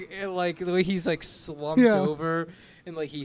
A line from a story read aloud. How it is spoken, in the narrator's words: he sighs as he says